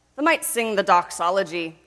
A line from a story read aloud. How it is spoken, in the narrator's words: suggested in his dryet grunt